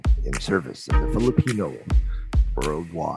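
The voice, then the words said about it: Impression of Peter Musmi. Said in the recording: “my Peter Musmi impression ... No, that's terrible.”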